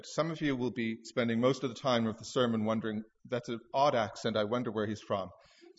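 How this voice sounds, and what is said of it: Welsh accent, partly Canadian-softened. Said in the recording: “I was raised as a little boy in Cardiff, Wales ... because of my strange, thick accent ... when I preach and when I speak publicly, I default a bit back to my old accent.”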